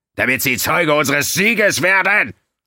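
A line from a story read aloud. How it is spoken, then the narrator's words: Shouting. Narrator (German): schrie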